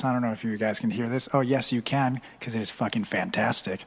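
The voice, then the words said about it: Smooth, deep radio-announcer voice. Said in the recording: “smooth, smooth radio voice”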